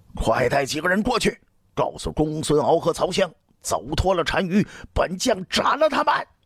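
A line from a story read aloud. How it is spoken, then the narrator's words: Hoarse desperate shouting. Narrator (Chinese): 卫青几乎是声嘶力竭地对李烨喊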